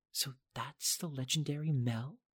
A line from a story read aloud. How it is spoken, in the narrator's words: She whispered